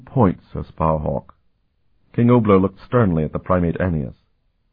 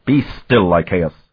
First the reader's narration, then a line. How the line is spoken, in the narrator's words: Aeneas snapped at him